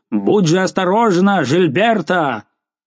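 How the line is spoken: Alarmed, full-voice shout. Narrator (Russian): Встревоженный граф крикнул вдруг изо всей силы

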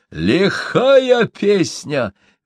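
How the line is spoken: Chieftain exclaiming. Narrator (Russian): воскликнул атаман

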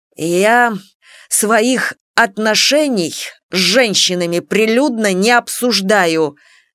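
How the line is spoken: Slow, through gritted teeth. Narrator (Russian): медленно сквозь зубы процедил Василий

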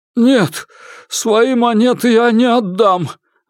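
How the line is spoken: Exclaimed. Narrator (Russian): воскликнул он

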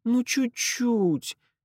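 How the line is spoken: Pleading. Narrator (Russian): взмолилась она

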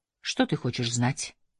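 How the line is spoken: Soft question. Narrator (Russian): мягко спросил Кадер

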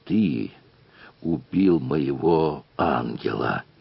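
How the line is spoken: Furious whisper. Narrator (Russian): багровея злобным шепотом проговорил капрал

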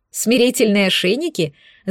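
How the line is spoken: Laughing. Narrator (Russian): засмеялась я

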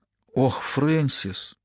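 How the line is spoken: Quiet, surprised. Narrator (Russian): Начала она тихим, удивленным голосом

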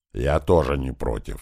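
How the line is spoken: Deep bass voice. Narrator (Russian): пробасил Большой

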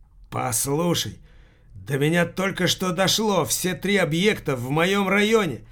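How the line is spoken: Alarmed exclamation. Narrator (Russian): воскликнул с тревогой Упыркин

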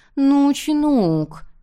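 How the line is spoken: Cloyingly sweet voice. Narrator (Russian): Хэри продолжила приторно-сладким голосом

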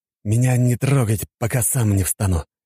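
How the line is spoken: Hoarse exhausted sigh. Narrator (Russian): Хриплым от перенапряжения голосом вздохнул

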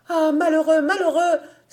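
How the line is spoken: Anguished cry. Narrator (French): s'écria Marie Bennec, qui déjà avait au cou la couleur de la mort

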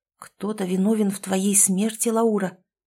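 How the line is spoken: Barely audible. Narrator (Russian): еле слышно проговорил я

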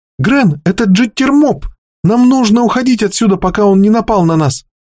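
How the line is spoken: Frightened shout. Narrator (Russian): испуганно закричала Пойли

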